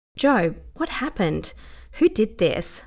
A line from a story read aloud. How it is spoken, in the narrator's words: Lara asked, trying to keep her tone gentle